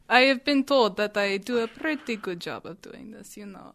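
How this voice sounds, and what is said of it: Put-on Russian accent. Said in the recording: “I've been told that I do a pretty good Russian accent. ... this is my Russian accent.”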